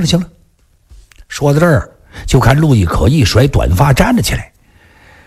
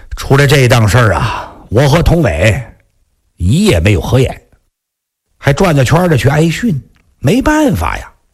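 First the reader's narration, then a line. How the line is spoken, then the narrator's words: Long sigh. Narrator (Chinese): 长叹一声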